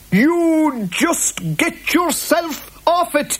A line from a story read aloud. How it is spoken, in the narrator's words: yelled the boggart